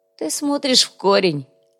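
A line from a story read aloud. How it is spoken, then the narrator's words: Laughed lightly. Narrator (Russian): легко рассмеялся Андрей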